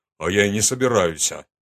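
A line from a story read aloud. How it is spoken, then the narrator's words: Snorting. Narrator (Russian): фыркнул он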